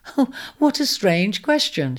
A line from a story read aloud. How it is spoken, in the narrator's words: she laughed softly